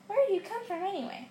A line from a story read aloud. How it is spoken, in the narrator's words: Harry asked